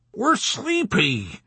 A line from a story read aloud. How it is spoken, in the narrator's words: Orr whined